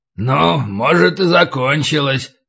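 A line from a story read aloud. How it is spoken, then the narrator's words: Hoarse agreement. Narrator (Russian): согласился хриплый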